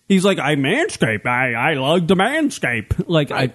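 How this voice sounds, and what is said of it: Imitation of a friend's voice. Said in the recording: “I'm trying to do an Andrew impression, right. But it's not working. ... That's pretty good, actually.”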